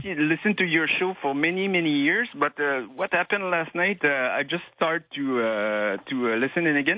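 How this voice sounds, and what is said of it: Quebec French accent in English. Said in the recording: “For my French accent. I'm from Quebec.”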